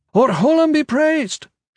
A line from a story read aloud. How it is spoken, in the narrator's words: shouted